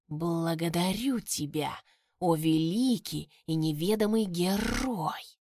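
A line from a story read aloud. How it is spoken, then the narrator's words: Hissed. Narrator (Russian): прошипел он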